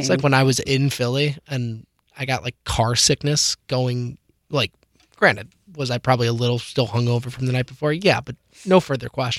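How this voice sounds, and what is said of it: Hoarse, strained voice. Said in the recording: “I've been losing my voice for a while. ... It's been like this for the last few weeks.”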